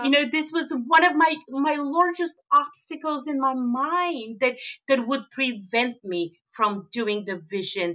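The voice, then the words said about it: Foreign accent. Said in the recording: “I keep forgetting that I'm from somewhere else ... oh, my accent.”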